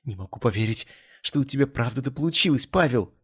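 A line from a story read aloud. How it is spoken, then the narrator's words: Exclaiming. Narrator (Russian): воскликнула она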